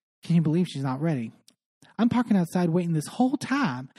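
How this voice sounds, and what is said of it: Put-on Southern accent. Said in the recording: “I am mixing up my accents. ... Dorit is not suddenly Southern.”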